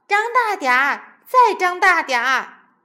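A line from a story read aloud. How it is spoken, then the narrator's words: Shouting. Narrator (Chinese): 地搜头太太也跟着大叫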